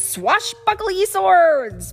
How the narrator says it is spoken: Barnacle Barb barked

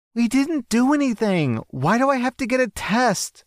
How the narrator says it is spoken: The girl is pleading, and she begins to cry

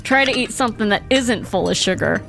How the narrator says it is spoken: Grandpa Walker said with a laugh

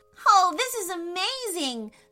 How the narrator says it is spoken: Sophie shouted

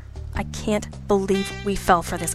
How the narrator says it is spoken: I muttered

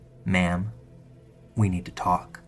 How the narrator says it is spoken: He says in a low, calm voice

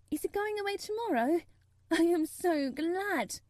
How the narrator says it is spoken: cried Mary

